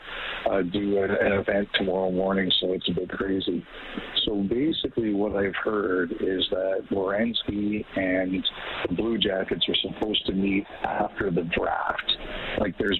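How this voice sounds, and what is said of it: Whispering, quiet voice. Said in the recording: “if I'm whispering a bit, I'm on a train.”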